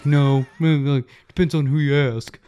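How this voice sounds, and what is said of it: Imitates another person's voice. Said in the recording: “That's a poor ... impersonation”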